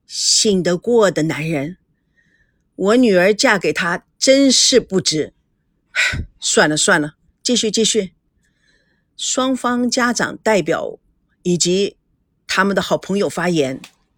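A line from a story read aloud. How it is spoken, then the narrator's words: Sighing. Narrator (Chinese): 孙振叹口气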